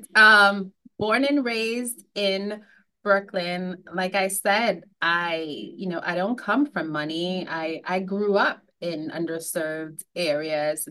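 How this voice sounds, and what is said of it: New York accent. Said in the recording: “I am a native New Yorker, if you could not tell by the accent”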